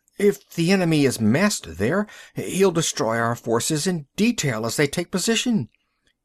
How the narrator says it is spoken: cried the chief of staff

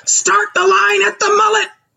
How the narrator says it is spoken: Ujinga yells

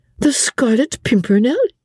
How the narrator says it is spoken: said Suzanne, with a merry laugh

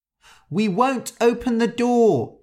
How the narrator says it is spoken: they cried

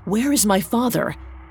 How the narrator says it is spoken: gasped Aeneas as soon as his lungs permitted

